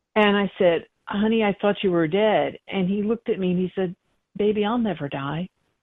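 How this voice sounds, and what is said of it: Emotional, choked-up voice. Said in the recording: “Now I'm getting a little emotional.”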